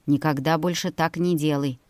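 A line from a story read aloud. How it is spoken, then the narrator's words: Stern. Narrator (Russian): строго произнес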